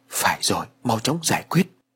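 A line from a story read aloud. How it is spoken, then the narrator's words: Old woman muttering. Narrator (Vietnamese): Bà lẩm bẩm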